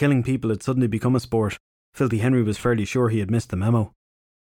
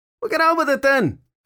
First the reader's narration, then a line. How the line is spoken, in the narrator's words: Filthy Henry yelled back